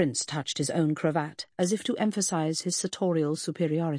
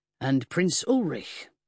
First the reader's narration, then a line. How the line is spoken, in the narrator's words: Pound acknowledged him icily